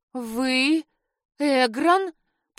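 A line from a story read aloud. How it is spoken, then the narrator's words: Shocked hoarse rasp. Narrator (Russian): прохрипела потрясенно, сраженная ужасной догадкой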